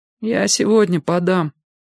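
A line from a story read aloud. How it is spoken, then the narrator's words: Dejected voice. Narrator (Russian): упавшим голосом сказал Валька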